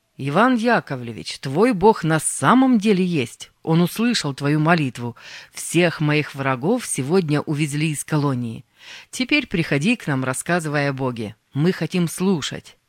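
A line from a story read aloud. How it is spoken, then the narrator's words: Loud. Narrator (Russian): громко сказал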